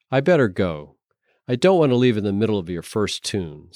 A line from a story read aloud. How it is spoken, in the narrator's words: said Lisa